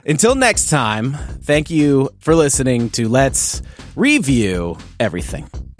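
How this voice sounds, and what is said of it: Radio announcer voice. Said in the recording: “That was kind of like my radio voice”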